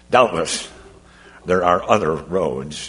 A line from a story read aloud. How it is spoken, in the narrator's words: he mumbled at last